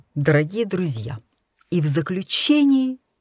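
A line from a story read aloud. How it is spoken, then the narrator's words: Blurted out. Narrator (Russian): я сама сказанула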